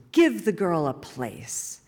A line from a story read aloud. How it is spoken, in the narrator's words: Henry bellowed from the center of the solar system